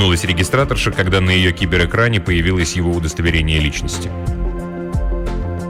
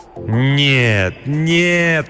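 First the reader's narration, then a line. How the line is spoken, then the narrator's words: Moaned. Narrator (Russian): простонал он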